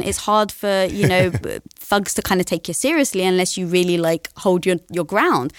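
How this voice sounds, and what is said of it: British accent. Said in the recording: “with a British accent.”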